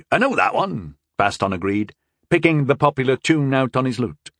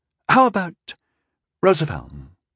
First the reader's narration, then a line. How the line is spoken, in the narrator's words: He asked hesitantly